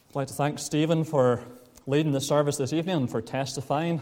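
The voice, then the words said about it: Non-local, non-Lisburn accent. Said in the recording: “you will be able to tell from his accent, he's not a Lisburn man”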